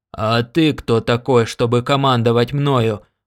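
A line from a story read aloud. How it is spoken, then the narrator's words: Miner roaring. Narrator (Russian): проревел рудокоп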